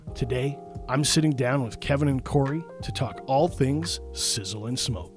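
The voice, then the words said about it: Smooth radio announcer voice. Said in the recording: “He's got a good voice. Got the radio voice.”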